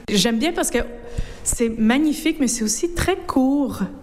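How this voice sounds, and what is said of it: North American French accent. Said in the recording (French): “à votre accent, que vous êtes une de nos cousines outre-Atlantique”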